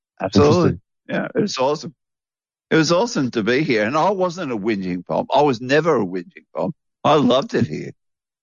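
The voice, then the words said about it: Australian accent. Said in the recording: “You developed an Australian accent very well.”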